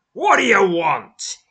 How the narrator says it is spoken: he snaps

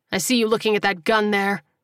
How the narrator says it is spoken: he said with a sneer

